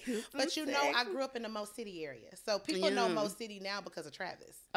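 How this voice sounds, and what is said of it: Southern US accent. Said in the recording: “this accent, this, I know this accent. Like, she is from the good South.”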